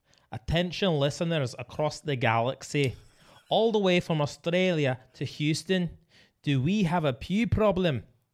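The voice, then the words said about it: Put-on Scottish accent. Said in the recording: “sometimes I just feel like doing accents. ... Scottish.”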